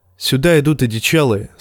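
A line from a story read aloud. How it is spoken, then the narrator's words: Plain. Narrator (Russian): сказал Джон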